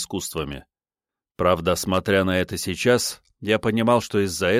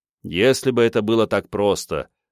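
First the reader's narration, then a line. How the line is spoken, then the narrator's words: Snorting. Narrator (Russian): хмыкнул я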